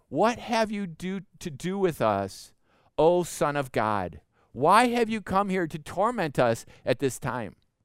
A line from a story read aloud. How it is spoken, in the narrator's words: they cried out